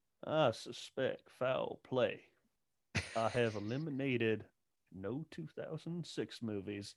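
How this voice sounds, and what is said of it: Exaggerated Southern accent character voice. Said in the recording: “It's a good Daniel Craig in the Knives Out... a Benoit Blanc impression... Southern accents”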